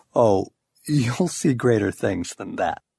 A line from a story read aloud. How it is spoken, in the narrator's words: he has to chuckle just a bit when he says